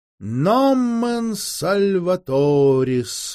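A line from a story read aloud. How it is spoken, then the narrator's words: Breathless exhale. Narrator (Russian): выдохнул он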